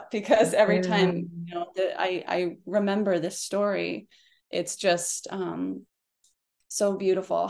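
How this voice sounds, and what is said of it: Emotional, choked-up voice. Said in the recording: “I'm getting a little choked up”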